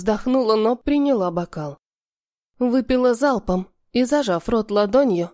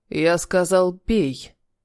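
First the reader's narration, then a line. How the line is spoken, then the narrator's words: Steely commanding voice. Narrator (Russian): приказал стальным голосом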